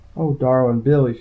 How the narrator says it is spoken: she sighed

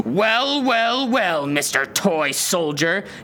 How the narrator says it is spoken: his father growled at him

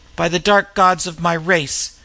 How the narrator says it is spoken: he cried in anger

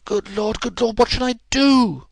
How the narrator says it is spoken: cried the stranger in an ecstasy of despair

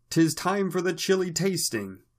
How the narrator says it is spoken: cried the town crier

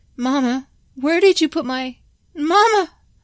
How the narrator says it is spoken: Carlos cried out

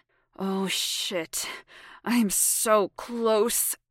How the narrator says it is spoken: growled

